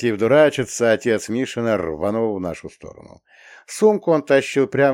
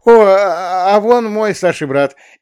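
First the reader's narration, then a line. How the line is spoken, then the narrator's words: Squeak. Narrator (Russian): Рязкин пискнул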